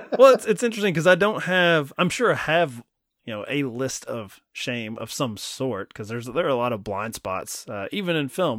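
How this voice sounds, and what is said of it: Kentucky accent. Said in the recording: “Listen to my accent ... you got the Kentucky accent”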